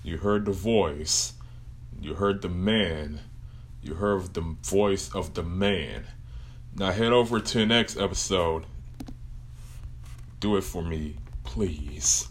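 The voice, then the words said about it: Exaggerated deep voice. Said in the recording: “my deep voice”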